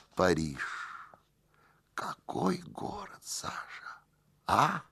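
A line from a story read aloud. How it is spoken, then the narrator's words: Quiet. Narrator (Russian): господин Киселев тихо проговорил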